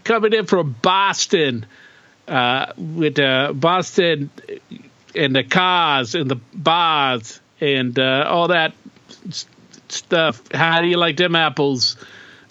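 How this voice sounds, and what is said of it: Poor put-on Boston accent. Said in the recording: “Terrible impersonation or attempt at an accent.”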